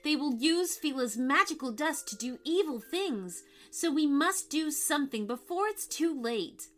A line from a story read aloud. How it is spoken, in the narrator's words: cried Mia